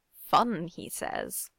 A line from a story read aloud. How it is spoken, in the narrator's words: Ben muttered